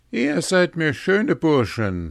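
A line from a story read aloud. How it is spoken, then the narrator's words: Called out. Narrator (German): rief Hans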